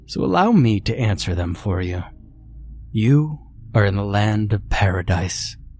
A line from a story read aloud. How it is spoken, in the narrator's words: the doctor chuckled